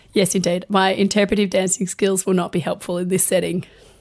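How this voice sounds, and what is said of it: Croaky, hoarse voice. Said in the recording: “you sound a little croaky ... I have laryngitis ... I'm quite croaky of voice”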